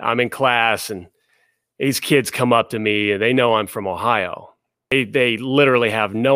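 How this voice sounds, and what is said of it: Usual voice. Nothing is said of it.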